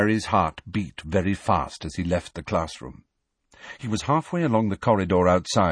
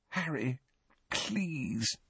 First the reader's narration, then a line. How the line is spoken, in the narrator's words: Hermione pleaded weakly